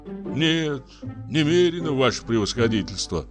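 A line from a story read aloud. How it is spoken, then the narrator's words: Guilty sighing answer. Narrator (Russian): ответил Иван Евсеевич и виновато вздохнул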